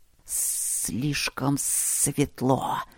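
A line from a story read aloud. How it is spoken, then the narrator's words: Hissing chorus. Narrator (Russian): зашипели сомнарисы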